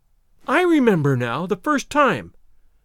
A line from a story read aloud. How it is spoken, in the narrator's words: I exclaimed, more angry than I had ever been before in my life